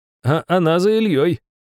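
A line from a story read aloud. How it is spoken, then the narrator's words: Chuckling. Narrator (Russian): хохотнул граф Бессмертный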